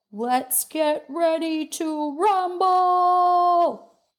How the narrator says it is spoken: MBC howling at all hours

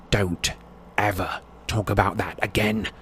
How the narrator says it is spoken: Harry snarled

